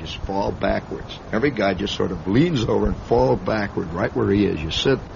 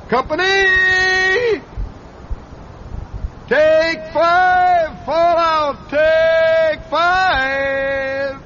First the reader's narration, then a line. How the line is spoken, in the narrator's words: he would holler